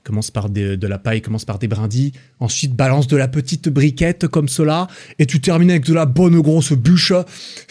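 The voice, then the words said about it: Put-on southern French accent. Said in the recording (French): “j'ai pris cet accent ... avec l'accent du sud avec ma version, euh, voilà, avec ma version de l'accent du Sud”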